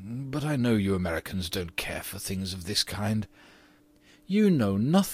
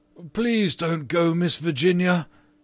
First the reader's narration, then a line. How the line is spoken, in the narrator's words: he cried